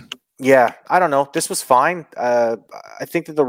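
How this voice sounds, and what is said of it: Usual voice. Nothing is said of it.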